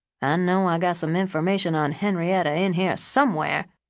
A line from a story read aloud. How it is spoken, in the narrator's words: he mumbled from under the mattress